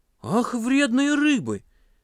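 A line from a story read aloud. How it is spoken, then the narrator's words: Exclaimed. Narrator (Russian): воскликнул Паша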